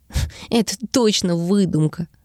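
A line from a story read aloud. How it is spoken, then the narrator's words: Disbelieving laugh. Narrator (Russian): Недоверчиво рассмеялся Лас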